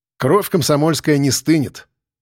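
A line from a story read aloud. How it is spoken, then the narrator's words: Wry snort. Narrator (Russian): хмыкнул я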